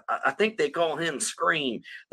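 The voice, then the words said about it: Weak put-on Southern US accent. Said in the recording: “that accent, my weak accent... he's from, like, South Carolina... he's a Southerner”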